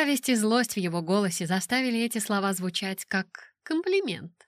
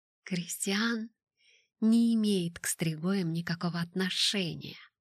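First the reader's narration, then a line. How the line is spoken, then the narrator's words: Very quiet. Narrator (Russian): сказала я очень тихо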